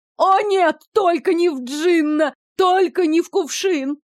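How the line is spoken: Wailing captive. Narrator (Russian): завопила пленница, окончательно придя в себя

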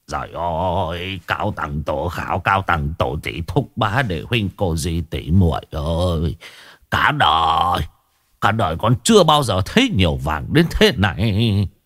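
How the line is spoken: Possessed old man muttering. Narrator (Vietnamese): Lão lẩm bẩm nói một mình như người bị ma nhập

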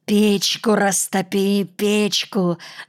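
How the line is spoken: Hoarse rasp. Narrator (Russian): захрипел он

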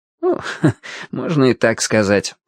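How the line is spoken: Snort. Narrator (Russian): хмыкнул собеседник

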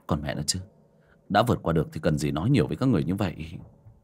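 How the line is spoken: Muttered cursing. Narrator (Vietnamese): Trong lòng hắn lẩm bẩm chửi thề

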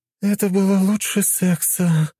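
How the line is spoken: Groaning, overstuffed. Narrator (Russian): простонала Лиза

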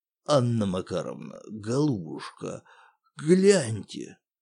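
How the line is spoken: Hoarse voice. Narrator (Russian): Сиплым голосом произнес управдом

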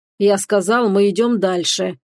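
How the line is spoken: Growling in her face. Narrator (Russian): прорычал он ей в лицо

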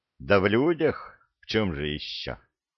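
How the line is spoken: Sighing. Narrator (Russian): вздохнул Санти

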